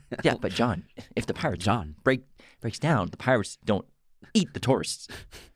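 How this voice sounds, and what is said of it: Imitates another person's voice. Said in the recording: “I tried to do a little Goldblum impression.”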